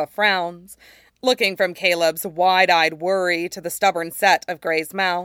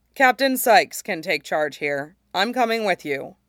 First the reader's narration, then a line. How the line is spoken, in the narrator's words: Gray says evenly